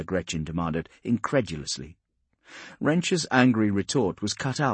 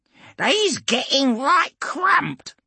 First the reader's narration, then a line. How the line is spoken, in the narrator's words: Chopper squealed excitedly